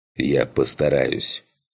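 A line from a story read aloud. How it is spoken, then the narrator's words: Growled. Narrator (Russian): прорычал я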